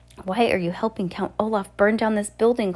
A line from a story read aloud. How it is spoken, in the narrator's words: Klaus cried